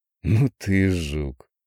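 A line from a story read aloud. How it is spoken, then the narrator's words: Drawn out, nearly admiring. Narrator (Russian): Чуть не с восхищением протянул Андрей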